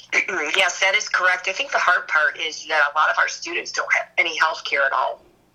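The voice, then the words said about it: Hoarse, froggy sick voice. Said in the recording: “sorry about my voice. I'm fighting COVID ... I'm just froggy”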